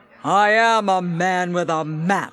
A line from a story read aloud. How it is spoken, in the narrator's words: boomed Little Jack